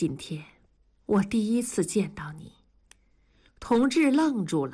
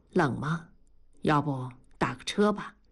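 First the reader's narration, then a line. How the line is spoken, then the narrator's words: Quiet question. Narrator (Chinese): 同志低声地问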